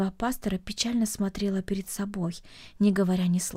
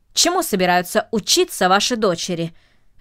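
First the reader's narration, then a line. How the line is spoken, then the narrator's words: Sharp question. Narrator (Russian): резко спросил джентльмен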